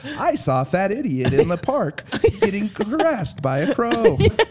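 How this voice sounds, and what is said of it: Imitates a robotic text-to-speech voice. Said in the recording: “It's that TikTok robot voice.”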